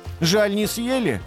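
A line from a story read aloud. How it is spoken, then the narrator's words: Crying, not shouting. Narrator (Russian): арбуз не кричал, но тоже плакал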